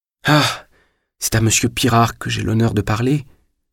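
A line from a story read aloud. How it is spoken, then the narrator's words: Faint, dying voice. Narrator (French): dit Julien d'une voix mourante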